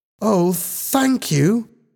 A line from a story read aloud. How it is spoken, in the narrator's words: Helen exclaimed happily